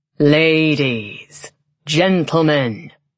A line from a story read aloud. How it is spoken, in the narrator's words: a deep male voice intoned from everywhere at once